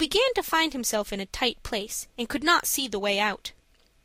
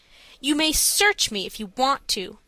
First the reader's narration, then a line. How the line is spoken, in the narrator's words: said Dick indignantly